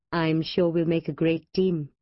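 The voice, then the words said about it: Gentle, charming male voice. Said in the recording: “in his gently charming voice.”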